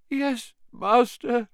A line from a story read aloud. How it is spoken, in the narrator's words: moaned Wormtail